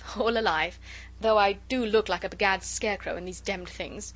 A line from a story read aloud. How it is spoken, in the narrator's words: said with his funny, inane laugh